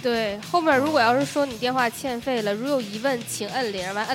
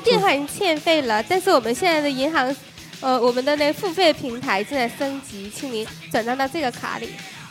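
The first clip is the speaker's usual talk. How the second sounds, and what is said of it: Put-on southern Chinese accent. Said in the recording (Chinese): “唰转到一个南方口音”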